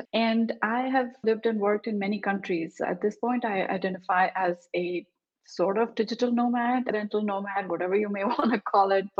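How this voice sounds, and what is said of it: Indian accent. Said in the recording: “I was born in India, as you can tell from my accent”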